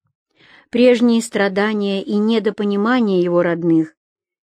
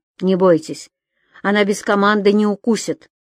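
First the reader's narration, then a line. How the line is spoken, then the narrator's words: Stern. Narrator (Russian): строго сказал человек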